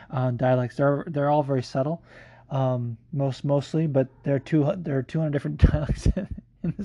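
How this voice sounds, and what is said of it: Usual voice. Nothing is said of it.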